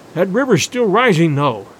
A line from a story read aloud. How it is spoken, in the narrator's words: he added, with a gasp